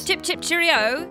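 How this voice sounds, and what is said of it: Put-on British accent. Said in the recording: “can you do a British voice?”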